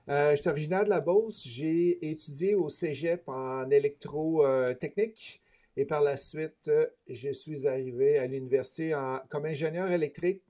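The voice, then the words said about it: Beauceron Quebec French accent. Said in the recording (French): “si vous entendez des mots bizarres des fois dans ma bouche, ben, c'est mon accent beauceron que j'ai pas tout à fait perdu”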